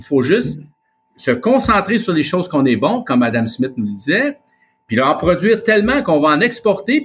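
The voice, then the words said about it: Québécois French accent. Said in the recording (French): “notre accent ... l'accent québécois est l'accent de, France de l'époque ... le patois 17e”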